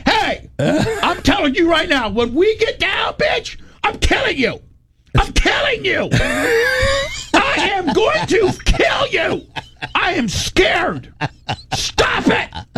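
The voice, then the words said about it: Yelling. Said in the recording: “I'm yelling”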